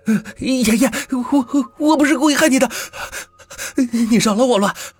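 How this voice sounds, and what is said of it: Crying, shouted desperate plea. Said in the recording (Chinese): “浑身抽搐的喊着 ... 哭醒了”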